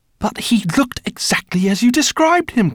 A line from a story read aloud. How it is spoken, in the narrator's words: cried Guinevere